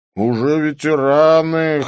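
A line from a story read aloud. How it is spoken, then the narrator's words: Snorting. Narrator (Russian): хмыкнул Клифф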